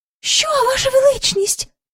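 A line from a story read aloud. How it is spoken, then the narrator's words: Courtiers crying out. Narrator (Ukrainian): скрикнули придворні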